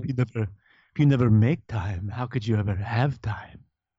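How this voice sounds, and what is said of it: Put-on French accent. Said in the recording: “the Merovingian from Matrix popped in my head ... A Arabic accent too. That's my French accent.”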